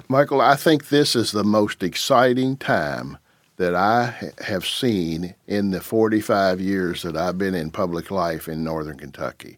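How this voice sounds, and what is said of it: Kentucky accent. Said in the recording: “that accent's from Jackson. You're from Jackson, Kentucky?”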